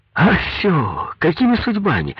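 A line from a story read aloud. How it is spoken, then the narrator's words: Joyful greeting. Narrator (Russian): радостно приветствовал его Коньков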